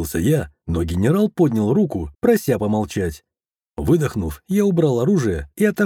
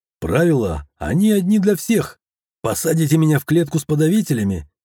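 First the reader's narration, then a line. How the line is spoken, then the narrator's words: Nearly laughing. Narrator (Russian): чуть не рассмеялся я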